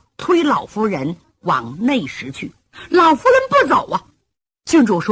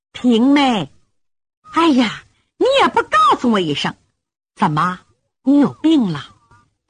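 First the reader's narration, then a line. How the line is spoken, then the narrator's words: Clear, pleasant voice. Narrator (Chinese): 厅外有人说话，声音清脆悦耳动听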